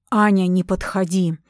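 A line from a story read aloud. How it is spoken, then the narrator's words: Ferocious growl. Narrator (Russian): свирепо рычал Рипли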